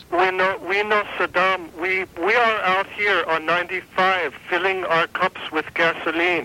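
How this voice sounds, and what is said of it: Funny foreign accent, Greek or Middle Eastern. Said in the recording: “that's sure a funny accent for a French Canadian man. You sound more like you just got like Greek to me... it sounds like he just came from Iraq with a banjo on his knee”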